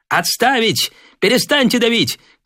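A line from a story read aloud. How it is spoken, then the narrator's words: Shout. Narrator (Russian): крикнул Девятаев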